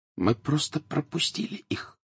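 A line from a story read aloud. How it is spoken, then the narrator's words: Dull, muffled voice. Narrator (Russian): глухо произнесла Тонкс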